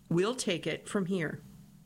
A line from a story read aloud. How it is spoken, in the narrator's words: the agent supposedly said, firmly but politely